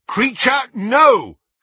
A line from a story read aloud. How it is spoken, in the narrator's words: shouted Harry